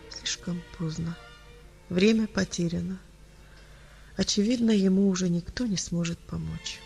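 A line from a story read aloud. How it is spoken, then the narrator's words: Quiet, grave doctor. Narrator (Russian): Врач тихо произнес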